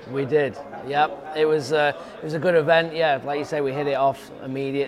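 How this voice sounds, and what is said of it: British accent. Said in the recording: “got a strange accent for many of you that are listening and watching this, because he's actually from the UK.”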